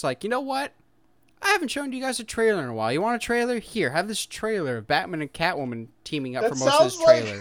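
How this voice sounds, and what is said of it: Imitates another person's voice. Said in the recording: “best Matt Reeves impression I've ever seen. Because that's exactly how he talks.”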